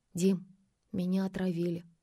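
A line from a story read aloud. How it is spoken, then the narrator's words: Trembling voice. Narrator (Russian): Надя дрожащим голосом произнесла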